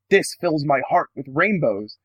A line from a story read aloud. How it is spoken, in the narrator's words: Girahim exclaimed